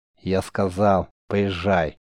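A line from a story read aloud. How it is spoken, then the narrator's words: Curt, almost angry. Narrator (Russian): почти зло бросил маг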